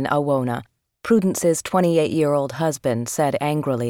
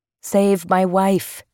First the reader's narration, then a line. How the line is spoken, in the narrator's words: he pleaded